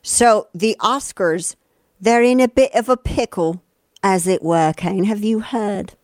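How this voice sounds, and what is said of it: Put-on accent. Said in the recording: “I don't know why I have to use that accent, but it makes it better.”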